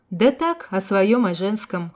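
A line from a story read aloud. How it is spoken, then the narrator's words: Snorting. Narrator (Russian): хмыкнул пиромант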